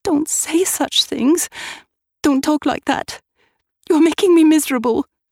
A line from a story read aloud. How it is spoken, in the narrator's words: I cried